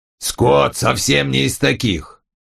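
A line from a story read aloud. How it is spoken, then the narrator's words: Angry grumble. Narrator (Russian): сердито проворчал он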